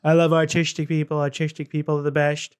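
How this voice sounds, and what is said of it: Imitates another person's voice. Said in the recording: “I'm doing an impression of Trump talking about autism”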